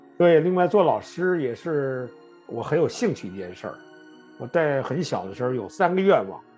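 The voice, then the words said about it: Pure, standard Mandarin accent. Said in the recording (Chinese): “口音也比较纯正吧 ... 您这个普通话说的标准着呢”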